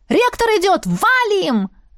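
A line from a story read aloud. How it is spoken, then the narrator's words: Full-lunged scream. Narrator (Russian): завопила во всю мощь своих легких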